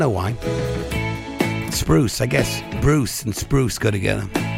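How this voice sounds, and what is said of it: Usual voice. Nothing is said of it.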